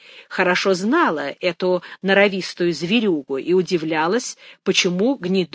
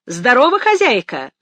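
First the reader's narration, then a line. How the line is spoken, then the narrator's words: Hailing call. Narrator (Russian): окрикнул он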